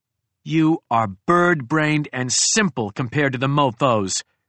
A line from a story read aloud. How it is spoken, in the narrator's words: I spat